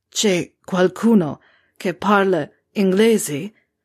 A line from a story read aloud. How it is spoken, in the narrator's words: He grunted between heavy thrusts